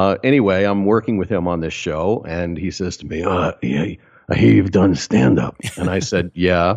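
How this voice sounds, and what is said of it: Usual voice. Nothing is said of it.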